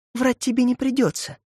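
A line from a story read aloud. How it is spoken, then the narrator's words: Breathed out. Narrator (Russian): выдохнула она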